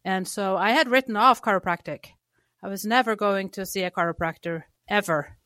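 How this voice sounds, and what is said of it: Slight Norwegian accent. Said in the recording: “I grew up in Norway. You can probably hear I don't have a Texas twang ... if you're picking up on a little accent here ... grew up in Norway”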